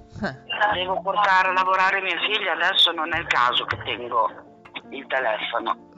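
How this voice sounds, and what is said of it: Ferrarese Italian regional accent. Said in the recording (Italian): “anche tu sei molto ferrarese, ecco, hai questo accento”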